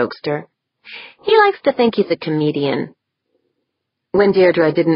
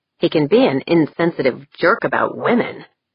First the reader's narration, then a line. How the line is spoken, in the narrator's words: Janet grumbled